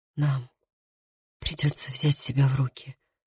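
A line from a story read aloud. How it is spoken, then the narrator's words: Breathless whisper. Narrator (Russian): прошептал он, задыхаясь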